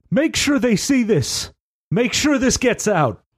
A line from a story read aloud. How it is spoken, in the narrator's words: Kendrick yells out towards Willette